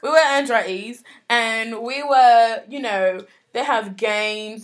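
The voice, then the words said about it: Put-on British accent. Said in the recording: “I'm talking for in a British accent for the rest of the podcast.”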